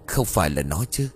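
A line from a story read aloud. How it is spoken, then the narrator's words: Muttering. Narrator (Vietnamese): Tiến lẩm bẩm trong miệng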